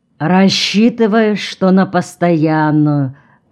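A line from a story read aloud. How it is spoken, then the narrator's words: Muffled, hollow voice. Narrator (Russian): глухо проговорил Артем Иванович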